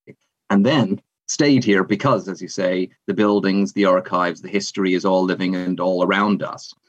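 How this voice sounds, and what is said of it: Canadian accent softened by British living. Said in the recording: “you might not immediately tell it anymore from my accent, at least if you're mostly accustomed to North American accents ... I'm actually originally a Canadian and came to the UK”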